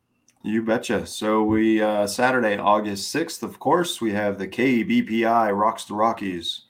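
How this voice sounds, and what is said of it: Put-on radio announcer voice. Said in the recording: “You like my radio voice?”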